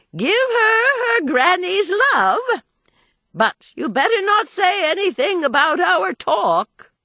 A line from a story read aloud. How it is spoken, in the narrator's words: she called out after him